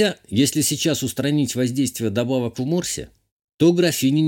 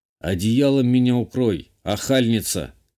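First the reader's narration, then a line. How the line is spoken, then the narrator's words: Amused snort. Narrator (Russian): хмыкнул я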